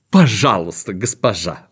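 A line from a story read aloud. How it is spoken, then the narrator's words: Exclaimed, beaming. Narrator (Russian): воскликнул он, расплываясь в улыбке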